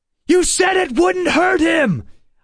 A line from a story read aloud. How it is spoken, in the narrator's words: I shouted at Bentham